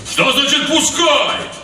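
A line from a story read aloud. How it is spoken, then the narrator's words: Yell. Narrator (Russian): заорал кто-то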